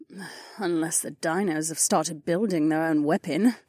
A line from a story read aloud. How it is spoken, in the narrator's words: Kat muttered